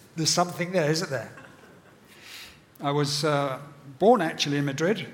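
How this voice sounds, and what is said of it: British accent with South African tinge. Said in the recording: “my British accent ... it's not quite the Queen's English ... you're South African”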